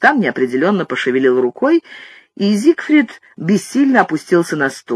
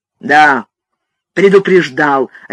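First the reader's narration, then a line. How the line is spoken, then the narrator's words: Barking. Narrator (Russian): рявкнул его брат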